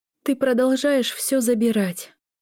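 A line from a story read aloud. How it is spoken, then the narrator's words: Weary reply. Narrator (Russian): устало ответила Лиля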